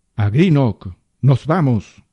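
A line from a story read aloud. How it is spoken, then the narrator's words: Commander bellowing. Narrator (Spanish): bramó el comandante del submarino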